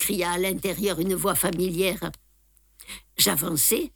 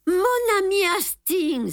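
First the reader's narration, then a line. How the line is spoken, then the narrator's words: Exclaimed. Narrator (French): s'écria-t-il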